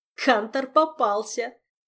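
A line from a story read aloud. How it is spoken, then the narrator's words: Eerie drunken laughing, excited. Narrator (Russian): С жутковатым нетрезвым хохотом объявил он, подпрыгивая на кресле от полноты чувств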